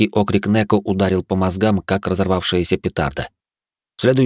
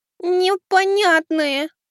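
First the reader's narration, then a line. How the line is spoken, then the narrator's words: Cat's purring voice. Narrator (Russian): промурлыкала кошка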